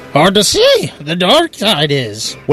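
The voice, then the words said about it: Yoda voice with Irish-sounding accent. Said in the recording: “Trying to sound Irish. Yoda was Irish all of a sudden.”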